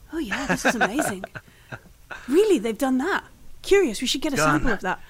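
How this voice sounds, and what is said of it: Imitates another character's voice. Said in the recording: “doing his best Engels impression.”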